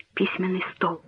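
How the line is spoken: Whispered. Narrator (Russian): прошептала Берта

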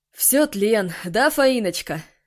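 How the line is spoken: Laughing. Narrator (Russian): засмеялся Егор

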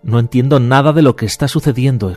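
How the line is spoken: Young man exclaiming. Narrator (Spanish): exclamó el joven

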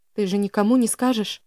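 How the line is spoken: Trembling voice. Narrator (Russian): дрогнувшим голосом спросила Селена

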